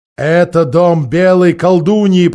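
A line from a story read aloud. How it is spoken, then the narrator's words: Growling. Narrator (Russian): прорычал он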